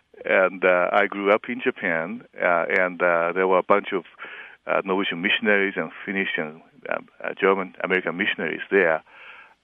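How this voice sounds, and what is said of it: Japanese accent in English. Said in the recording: “I am a Japanese. Obviously, I have an accent.”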